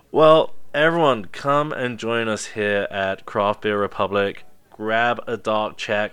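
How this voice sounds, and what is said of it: Speaks with a noticeable accent. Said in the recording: “my accent probably betrays me”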